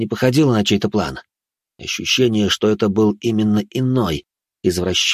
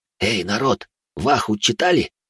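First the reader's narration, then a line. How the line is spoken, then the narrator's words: Young man whispering. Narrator (Russian): прошептал какой-то молодой паренек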